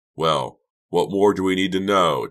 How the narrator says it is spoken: Doug cried

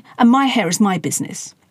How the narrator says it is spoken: snapped Sass, adding

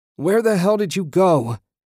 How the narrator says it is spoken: He wailed

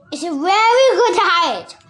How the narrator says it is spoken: the caterpillar shouted

